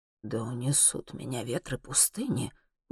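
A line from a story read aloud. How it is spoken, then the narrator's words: Muttering. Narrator (Russian): бормочет Элифас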